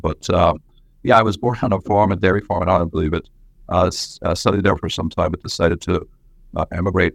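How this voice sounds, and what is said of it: Irish brogue mixed with Brooklyn accent. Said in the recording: “my accent is a little bit of a brogue, a little bit of Brooklyn”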